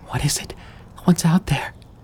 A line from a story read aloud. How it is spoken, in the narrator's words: Amy whimpered through tears